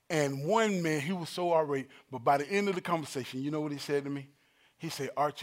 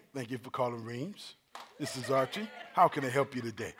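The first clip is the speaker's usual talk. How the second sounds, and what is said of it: Polite customer-service phone voice. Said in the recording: “you got an everyday voice, and then you got a phone voice ... I put my phone voice on”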